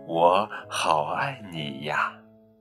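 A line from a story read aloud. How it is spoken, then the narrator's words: Soft, tender. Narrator (Chinese): 轻声地说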